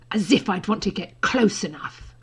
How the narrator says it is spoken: Draco hissed

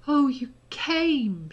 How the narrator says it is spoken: said, her voice breaking

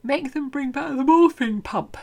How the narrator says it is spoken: she tells him, yawning through her words

